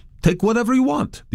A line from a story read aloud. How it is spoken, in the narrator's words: the owners exclaimed joyfully